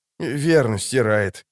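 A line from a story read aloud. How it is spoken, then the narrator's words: Gruff mutter. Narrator (Russian): буркнул Леннеп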